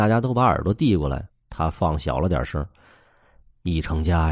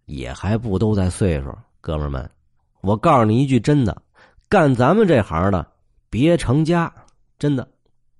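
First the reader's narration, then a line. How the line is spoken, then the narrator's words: Smiling. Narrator (Chinese): 高个子微笑着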